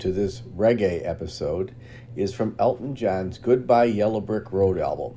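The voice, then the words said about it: Chicago-area accent. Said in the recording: “where in Chicago is he from? ... I heard that accent”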